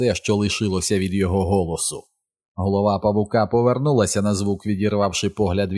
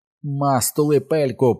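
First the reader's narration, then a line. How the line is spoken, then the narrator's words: Shrill squeaky shout. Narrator (Ukrainian): пронизливо, пискляво закричав Едді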